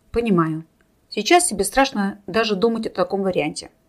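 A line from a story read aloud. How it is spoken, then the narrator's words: Calm agreement. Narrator (Russian): спокойно согласился тот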